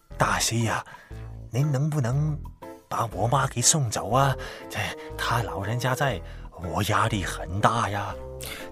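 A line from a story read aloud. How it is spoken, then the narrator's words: Lowered voice. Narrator (Chinese): 聂圭压低了声音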